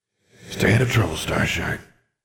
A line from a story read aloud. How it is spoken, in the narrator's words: he said, his voice mournful and fading as he dissipated as if in an unseen wind